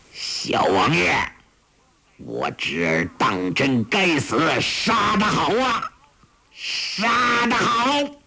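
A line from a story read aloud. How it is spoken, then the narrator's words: Chilling, shrill laughing voice. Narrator (Chinese): 笑声森寒，话声凄厉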